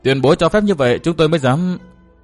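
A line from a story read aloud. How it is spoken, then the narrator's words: Smiling. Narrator (Vietnamese): Phương Tử Ngọc mỉm cười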